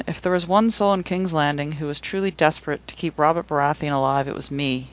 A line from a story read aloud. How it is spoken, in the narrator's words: sighed